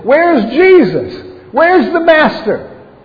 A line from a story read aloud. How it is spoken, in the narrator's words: yelling to each other over the winds